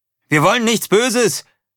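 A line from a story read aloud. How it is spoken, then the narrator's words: Calling out. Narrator (German): rief er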